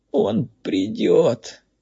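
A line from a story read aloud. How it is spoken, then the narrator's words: Captive's moan. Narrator (Russian): простонал пойманный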